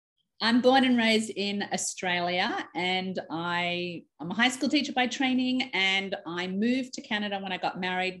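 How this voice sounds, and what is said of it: Slight Australian twang accent. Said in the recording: “you've also got a little twang to your accent ... you're living in Canada, but you're not from Canada”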